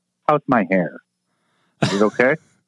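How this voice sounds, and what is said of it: Imitates another person's voice, Irish-sounding. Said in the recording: “That's a very good Jake Berry impersonation ... Jake is not Irish ... it sounded a lot like him”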